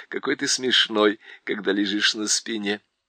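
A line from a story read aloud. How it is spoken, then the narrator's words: Laughing. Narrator (Russian): Шаста засмеялся и сказал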